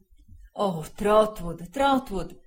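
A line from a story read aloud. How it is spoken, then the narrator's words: Anguished exclamation. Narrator (Italian): esclamò il signor Wickfield, torcendosi le mani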